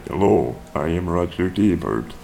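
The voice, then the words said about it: Robotic computer-synthesized voice. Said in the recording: “His robot voice is pretty good, though. ... That's really good, actually. That's freaky. ... Do it like a Mac.”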